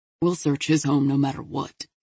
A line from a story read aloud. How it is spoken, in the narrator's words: Foster said grimly